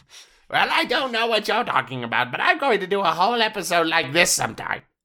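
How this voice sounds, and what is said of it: Old comedy wizard voice. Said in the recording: “You sound like an old wizard. Yes. Like a comedy wizard.”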